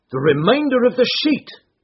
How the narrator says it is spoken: cried the inspector

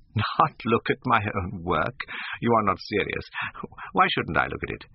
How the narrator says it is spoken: exclaimed Hallward, laughing

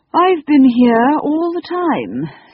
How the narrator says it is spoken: said, yawning politely

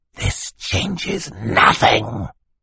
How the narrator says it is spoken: hissed

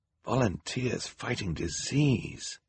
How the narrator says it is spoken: Klaus whispered to Violet

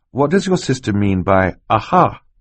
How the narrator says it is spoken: he asked

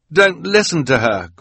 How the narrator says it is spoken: Quigley pleaded

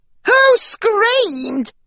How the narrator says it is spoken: another cried

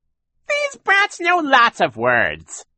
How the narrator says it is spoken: Shirley said in her ridiculously fake high voice

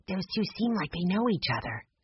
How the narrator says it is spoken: Violet whispered to Jessie

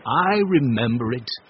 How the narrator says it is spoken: said Mr

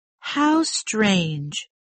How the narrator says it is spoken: cried Marianne

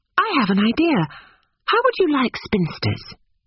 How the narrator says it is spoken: Lucy exclaimed

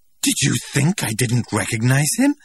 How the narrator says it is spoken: Linda asked indignantly

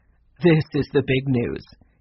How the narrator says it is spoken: said, laughing

